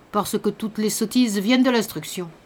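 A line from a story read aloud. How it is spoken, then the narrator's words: Resolute old man. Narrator (French): dit le vieillard d'un ton résolu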